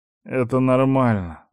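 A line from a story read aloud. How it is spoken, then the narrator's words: Strained, choked. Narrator (Russian): сдавленно выдавил я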